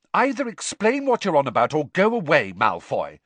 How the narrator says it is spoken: said Hermione testily

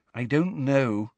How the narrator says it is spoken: said Hermione miserably

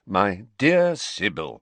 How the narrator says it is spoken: said Dumbledore in a slightly exasperated voice

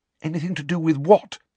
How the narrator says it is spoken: said Hermione anxiously

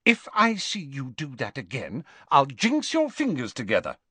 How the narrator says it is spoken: she said sharply

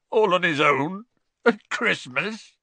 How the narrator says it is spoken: choked Hagrid

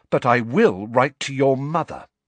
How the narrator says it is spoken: she said, her voice quivering with anger

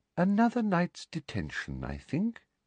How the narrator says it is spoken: she said softly

